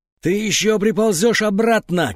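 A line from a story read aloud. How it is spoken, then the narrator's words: Shouting between retching, echoing. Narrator (Russian): кричала она в промежутках между приступами рвоты, и голос эхом раскатывался по лестнице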